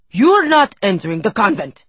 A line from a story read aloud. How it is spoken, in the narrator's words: he shouted